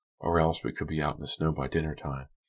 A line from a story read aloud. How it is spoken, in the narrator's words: Shannon whispered